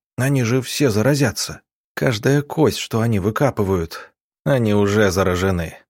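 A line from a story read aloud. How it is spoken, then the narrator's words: Gloomy statement. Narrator (Russian): мрачно констатировал Иван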